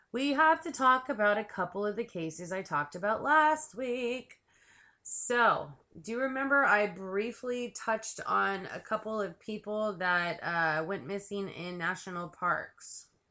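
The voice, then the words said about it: Scratchy, hoarse voice. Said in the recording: “my voice is all scratchy again ... I'm trying to lose my voice, but it's coming back ... So I apologize for the scratchy voice again.”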